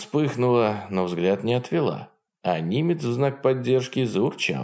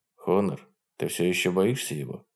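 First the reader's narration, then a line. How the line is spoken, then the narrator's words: Gentle question. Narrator (Russian): мягко спросил он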